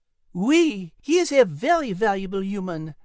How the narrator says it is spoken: Liz exclaimed happily

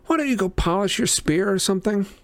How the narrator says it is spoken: Annabeth sighed

